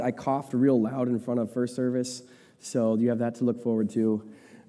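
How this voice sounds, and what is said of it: Strained voice from a cold. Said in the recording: “My voice is a little on the fritz, getting through a cold... if I squeak halfway through”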